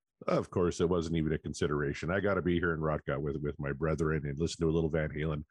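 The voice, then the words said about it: Very deep, strained, failing voice. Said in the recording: “I got my Barry White voice going on... my voice is going to give out”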